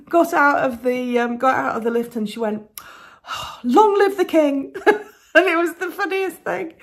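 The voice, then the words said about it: English accent. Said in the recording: “"Are you from Scotland?" "No, I'm from England." ... "Oh, I love your accent, blah blah blah, London, la la la."”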